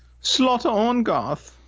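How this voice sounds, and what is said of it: Rough put-on German-sounding accent. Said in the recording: “Man, that was a pretty cool accent. What was that? Was that like a female, like old-time British type shit? ... I was going for some German sounding of German sounding bullshit ... Not bad. Work on that, but not bad.”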